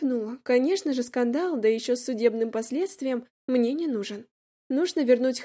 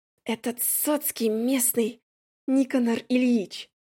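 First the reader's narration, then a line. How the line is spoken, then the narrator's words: Whisper. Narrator (Russian): шепнул Еремей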